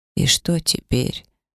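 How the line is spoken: Dejected grandmother. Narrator (Russian): поникшим голосом спросила бабушка

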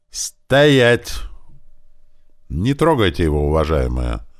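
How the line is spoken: Addressing the crowd. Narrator (Russian): молвил всему народу сотник

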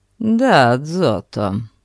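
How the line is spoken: Dry reply. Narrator (Russian): ответил сухо граф

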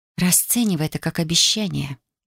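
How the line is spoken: Languid, breathy. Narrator (Russian): выдохнула томно

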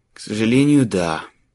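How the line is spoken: Grumble. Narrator (Russian): проворчал Марк

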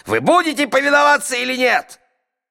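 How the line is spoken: Angry yelling. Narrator (Russian): судья топнул ногой и заорал

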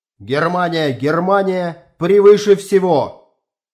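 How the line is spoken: Loud shout. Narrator (Russian): генерал громко крикнул

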